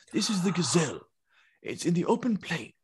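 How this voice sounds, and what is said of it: Imitates nature documentary narrator voice. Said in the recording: “You never seen a nature documentary ever? That's the guy who does the voice.”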